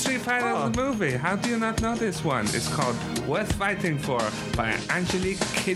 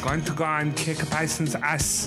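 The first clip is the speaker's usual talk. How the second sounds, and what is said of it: Put-on accent unlike speaker's own. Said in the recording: “I'll try and do the accent because it's very different from mine.”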